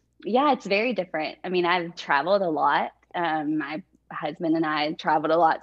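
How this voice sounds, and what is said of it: Texan accent. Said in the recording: “I'm from Texas. ... love your accent, by the way. ... I still have it. ... So it's so endearing.”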